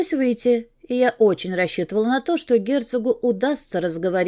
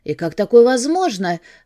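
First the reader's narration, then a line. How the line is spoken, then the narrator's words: Yelling. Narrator (Russian): заорала я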